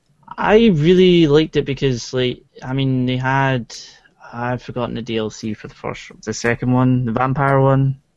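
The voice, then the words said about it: Put-on Scottish accent. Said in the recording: “why are you talking in a Scottish accent? That's weird.”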